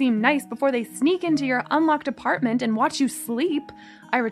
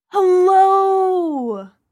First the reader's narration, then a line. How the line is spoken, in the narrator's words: he cried